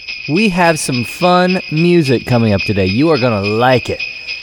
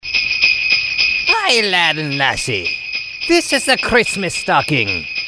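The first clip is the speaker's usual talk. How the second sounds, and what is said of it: Deliberately bad put-on Irish accent. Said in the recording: “with a very bad Irish accent.”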